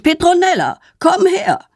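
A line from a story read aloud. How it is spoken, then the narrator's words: Angry father calling. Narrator (German): ihr Vater ruft wütend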